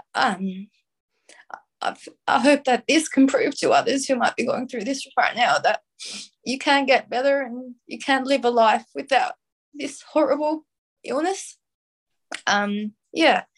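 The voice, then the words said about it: Emotional, choked-up voice. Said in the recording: “a bit emotional there”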